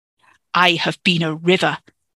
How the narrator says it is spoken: Merthyn snapped, eyes blazing with the insult

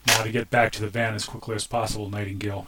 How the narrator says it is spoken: she said

